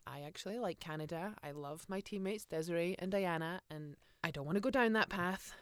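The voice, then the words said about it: Hybrid Scottish accent, sounds Canadian. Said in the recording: “I have this hybrid accent. A lot of people actually say to me, are you Canadian? ... I'm very much Scottish”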